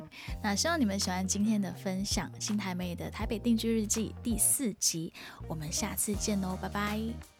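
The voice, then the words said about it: Taiwanese-accented Mandarin. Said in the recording (Chinese): “我的口音啊很像台湾人”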